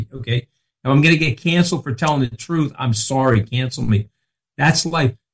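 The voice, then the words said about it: Long Island accent. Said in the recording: “I've got a Long Island accent”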